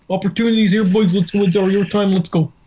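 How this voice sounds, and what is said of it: Imitates another person's voice. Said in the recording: “this is Mike Babcock ... that impression”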